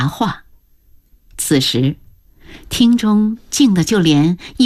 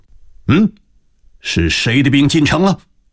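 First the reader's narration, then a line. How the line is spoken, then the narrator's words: Stern demand. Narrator (Chinese): 王辅臣厉声问道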